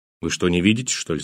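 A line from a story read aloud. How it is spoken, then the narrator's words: Angry. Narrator (Russian): сказал я зло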